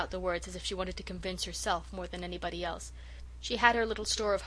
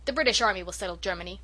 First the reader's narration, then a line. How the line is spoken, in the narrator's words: shouted Norman